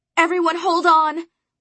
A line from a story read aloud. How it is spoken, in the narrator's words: I shouted